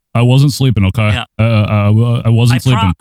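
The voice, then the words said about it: Imitates another person's voice. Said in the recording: “that got that impression I just did”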